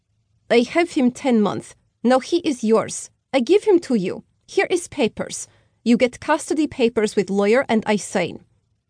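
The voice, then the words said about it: Heavy Slavic accent. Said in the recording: “in a heavily accented voice. ... Russian? Ukrainian? Definitely Slavic.”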